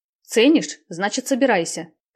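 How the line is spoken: Commanding order. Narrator (Russian): командным голосом приказала Наташа

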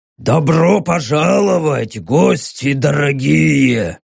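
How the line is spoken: Growling. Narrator (Russian): Скорее прорычал, чем сказал старший из вергов

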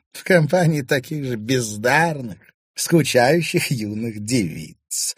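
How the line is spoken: Laughing. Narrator (Russian): рассмеялась Кадиша

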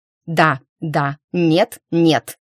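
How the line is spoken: Crisp, clipped. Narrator (Russian): отчеканила я

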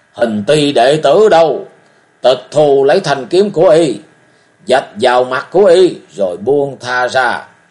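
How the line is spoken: Old man shouting orders. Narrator (Vietnamese): lão thét gọi thuộc hạ

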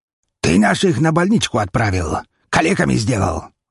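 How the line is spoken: Leader growling. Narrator (Russian): рыкнул главарь

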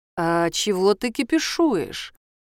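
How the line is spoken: Almost tender. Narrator (Russian): почти нежно спрашивает Белый

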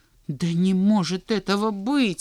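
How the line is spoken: Exclaimed. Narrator (Russian): воскликнул Санька

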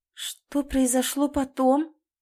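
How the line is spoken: Trembling voice. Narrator (Russian): дрожащим голосом спросила Оля

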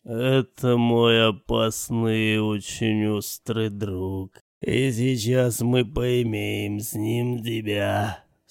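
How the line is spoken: Low menacing voice. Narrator (Russian): сказал маньяк низким голосом

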